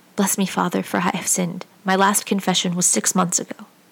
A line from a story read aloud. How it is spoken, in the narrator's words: hurriedly whispered